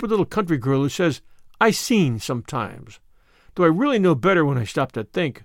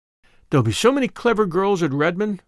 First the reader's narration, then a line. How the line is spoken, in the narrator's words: sighed Diana